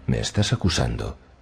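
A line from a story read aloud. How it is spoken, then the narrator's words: Quiet question. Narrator (Spanish): preguntó Euron en voz baja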